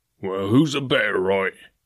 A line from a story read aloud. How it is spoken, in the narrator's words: growled the gamekeeper